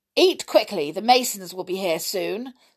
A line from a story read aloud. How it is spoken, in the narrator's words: snapped Aunt Petunia